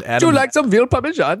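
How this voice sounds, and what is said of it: Put-on Italian accent. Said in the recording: “Give us an Italian accent”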